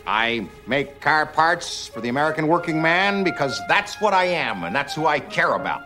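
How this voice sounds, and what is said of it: Chicago accent crossed with Coneheads accent. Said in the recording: “It's like a Chicago accent crossed with a Coneheads accent.”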